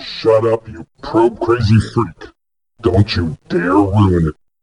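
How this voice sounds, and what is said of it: Character voice of Bob the Crack Weasel. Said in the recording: “doing the voice of Bob the Crack Weasel”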